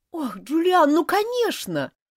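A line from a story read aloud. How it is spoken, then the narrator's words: Tearful female exclamation. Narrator (Russian): воскликнула бедная Элизабет, чуть не плача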